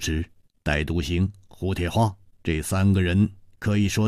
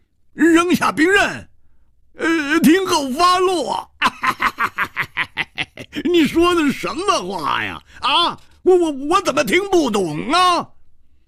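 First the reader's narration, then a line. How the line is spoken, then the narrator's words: Loud laughter. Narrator (Chinese): 胡铁花仰天大笑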